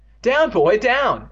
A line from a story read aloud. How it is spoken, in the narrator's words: Evan cried